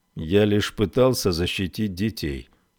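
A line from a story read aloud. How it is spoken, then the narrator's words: Dull muffled voice. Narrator (Russian): глухо произнес Долан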